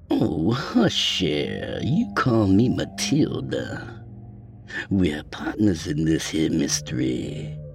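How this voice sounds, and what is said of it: Purring voice, slight Cajun accent. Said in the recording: “with a hint of Cajun accent flavored in her purring voice”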